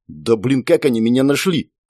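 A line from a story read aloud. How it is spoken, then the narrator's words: Grumbling mutter. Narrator (Russian): пробурчал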